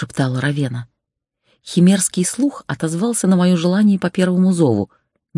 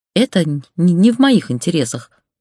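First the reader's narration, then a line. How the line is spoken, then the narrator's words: Man answering, slight stutter. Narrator (Russian): ответил мужчина, слегка заикаясь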